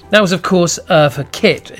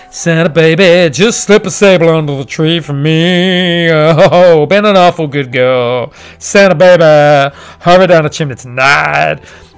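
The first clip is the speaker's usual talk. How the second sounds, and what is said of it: Sung imitation of another person's voice. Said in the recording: “as you could tell by my flawless impersonation of her”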